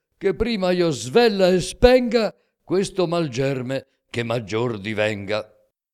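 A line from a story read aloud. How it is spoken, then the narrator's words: Shouting. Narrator (Italian): gridò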